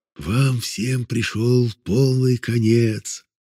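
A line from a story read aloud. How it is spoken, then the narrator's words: Whisper. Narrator (Russian): шепот этот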